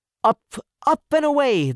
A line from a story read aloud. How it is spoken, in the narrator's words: they cried